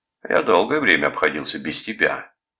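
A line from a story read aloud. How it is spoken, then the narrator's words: Stern. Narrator (Russian): строго сказал Калдервуд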